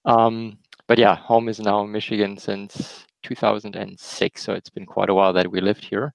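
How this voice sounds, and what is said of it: Slight German accent. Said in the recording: “Originally, we're from Germany, as you might hear in my slight accent, which is hard to hide.”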